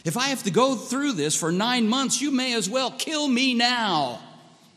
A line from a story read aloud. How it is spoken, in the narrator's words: in her dismay, of course dismay, Rebecca cried out